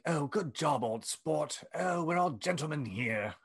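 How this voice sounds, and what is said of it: Put-on posh British accent. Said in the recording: “he has a British accent”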